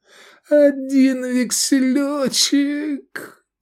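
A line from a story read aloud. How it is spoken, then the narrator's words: Moaning, acting a role. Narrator (Russian): простонал Эдик, исполнявший роль Лени Голубкова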